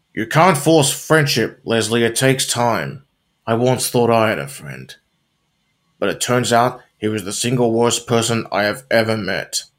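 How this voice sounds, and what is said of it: Ron Swanson impression. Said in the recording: “I'm about to do an impersonation of Ron Swanson from this episode.”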